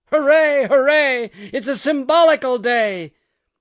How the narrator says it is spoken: Somebody wailed in and began to sing this rhyme

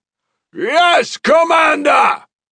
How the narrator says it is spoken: The entire platoon shouted

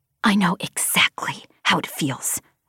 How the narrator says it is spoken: I hissed at Braid

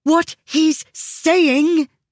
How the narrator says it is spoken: Miss Huda interjected angrily

